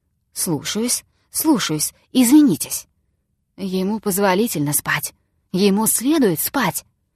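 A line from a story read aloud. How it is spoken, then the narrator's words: Whispering. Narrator (Russian): продолжал он снова шепотом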